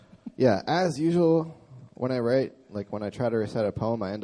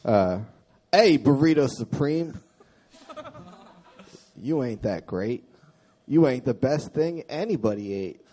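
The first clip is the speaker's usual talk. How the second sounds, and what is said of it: Rap-style spoken word delivery. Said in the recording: “I end up rapping a little ... this is a poem with like a rap accent. I think that's called spoken word.”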